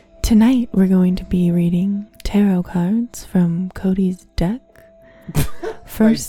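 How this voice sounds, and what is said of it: Calm soothing voice. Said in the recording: “give me a calm voice ... That was really good. I actually was calm.”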